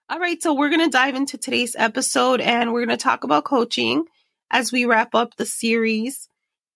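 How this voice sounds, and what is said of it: Voice sounds off, unwell. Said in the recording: “my voice is off today, it is... this weird voice thing going on”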